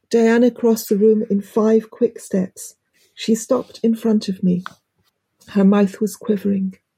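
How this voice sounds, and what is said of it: British accent. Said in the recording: “my British accent ... it sounds so much more refined”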